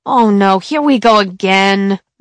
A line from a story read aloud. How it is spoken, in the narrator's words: Manny moaned